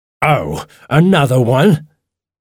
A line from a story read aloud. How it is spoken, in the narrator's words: he said angrily